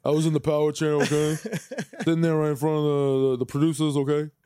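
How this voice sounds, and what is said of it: Mike Francesa impression. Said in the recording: “That's how Francesa handled it... That was a pretty good impression, too... Yeah, that wasn't bad, though... I got who it was”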